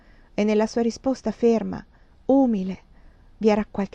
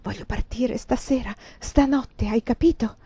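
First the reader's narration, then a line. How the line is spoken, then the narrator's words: Whisper. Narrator (Italian): le sussurrai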